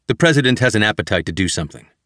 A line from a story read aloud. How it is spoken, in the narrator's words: O'Brien quickly responded with